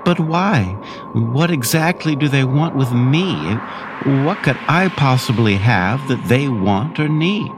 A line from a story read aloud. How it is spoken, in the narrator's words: asked Bitru, pleading with Brick